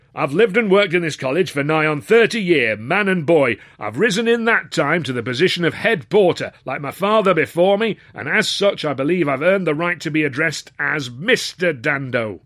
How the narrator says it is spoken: barked

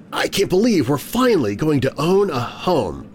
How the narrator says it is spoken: she exclaimed, a huge smile on her face

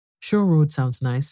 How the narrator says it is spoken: said Anne dreamily

